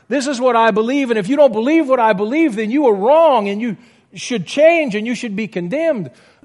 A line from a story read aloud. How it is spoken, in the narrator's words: I shout with all of my heart